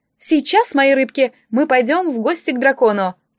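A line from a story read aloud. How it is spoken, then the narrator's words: Joyful declaration. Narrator (Russian): заявил он радостно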